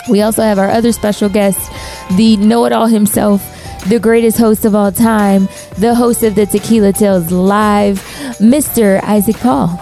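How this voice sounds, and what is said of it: Hoarse, fading voice. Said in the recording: “I am losing my voice.”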